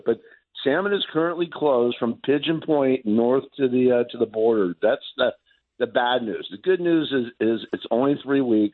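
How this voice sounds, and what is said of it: Hoarse, froggy voice. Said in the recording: “My voice is a little hoarse ... my voice has a little bit of a frog to it.”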